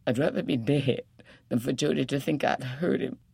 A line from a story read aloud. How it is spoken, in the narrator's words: she sobbed to Phoebe